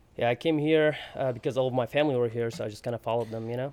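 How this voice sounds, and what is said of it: Foreign accent. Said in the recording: “you can hear my accent ... I can hear your accent, but I could not tell you that it was going to be from Syria”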